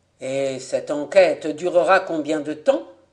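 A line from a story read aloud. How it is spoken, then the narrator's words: Plain question. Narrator (French): demanda Monsieur Voirin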